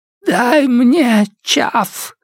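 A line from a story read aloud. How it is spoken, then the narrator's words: Rasp. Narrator (Russian): прохрипела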